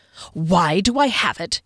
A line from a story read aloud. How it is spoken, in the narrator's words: snapped